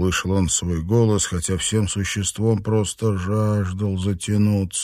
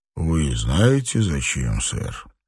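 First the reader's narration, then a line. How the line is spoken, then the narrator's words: Hoarse voice. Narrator (Russian): Армстронг хрипло проговорил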